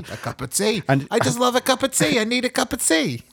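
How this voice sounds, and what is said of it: Badly done put-on accent. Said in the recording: “What the fuck is that accent? That's awful.”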